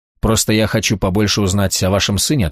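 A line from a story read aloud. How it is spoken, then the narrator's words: Plain. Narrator (Russian): ответил он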